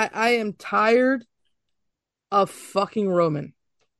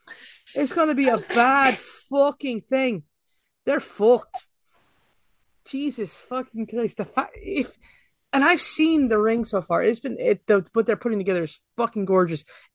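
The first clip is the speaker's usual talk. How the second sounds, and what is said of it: Scottish accent slipping into speech. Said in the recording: “an accent does come out. And so I'm sorry if my Scottish accent is stripping out”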